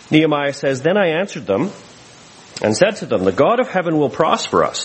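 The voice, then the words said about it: Canadian accent. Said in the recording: “you'll have to hear it in a Canadian accent.”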